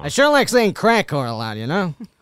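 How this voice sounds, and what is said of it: Imitates another person's voice. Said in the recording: “Oh, that's a good impression... That is a very good impression... That's very good.”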